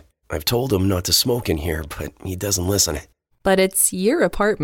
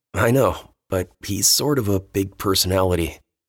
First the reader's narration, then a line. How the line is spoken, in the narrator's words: Dean chuckled